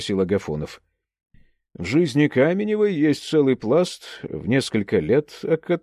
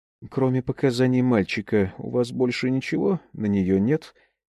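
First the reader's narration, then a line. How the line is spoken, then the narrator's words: Plain question. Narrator (Russian): спросила Викторова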